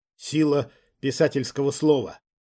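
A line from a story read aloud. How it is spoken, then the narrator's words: Breathless. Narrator (Russian): выдохнула я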